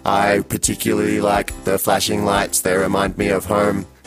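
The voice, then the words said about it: Robot voice. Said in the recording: “you have such a lovely robot voice”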